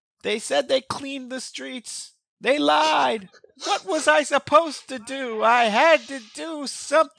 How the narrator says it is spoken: Weems is screaming

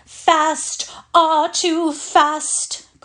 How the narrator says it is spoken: cried Miss Meadows

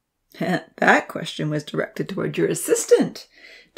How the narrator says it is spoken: Tom laughed

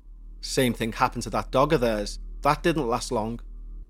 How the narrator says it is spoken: my dad said, quite harshly

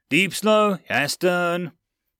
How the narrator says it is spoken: Chief Matt yelled

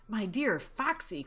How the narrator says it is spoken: cried Badger

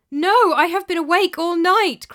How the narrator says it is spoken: cried Elisana

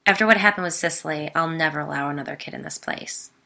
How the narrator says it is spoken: he said firmly

